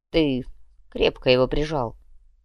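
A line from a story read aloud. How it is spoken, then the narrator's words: Grumbled. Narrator (Russian): буркнул глава управления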